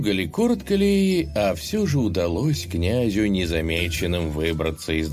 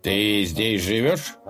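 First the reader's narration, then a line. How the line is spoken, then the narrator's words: Stern question. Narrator (Russian): строго спросил один из них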